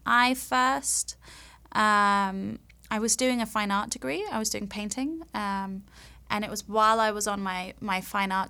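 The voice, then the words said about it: English London accent. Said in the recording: “you have an accent ... I'm from London ... I'm from England”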